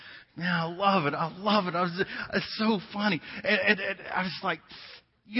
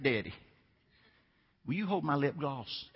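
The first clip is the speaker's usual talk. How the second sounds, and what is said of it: Put-on Southern accent. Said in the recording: “in that southern accent”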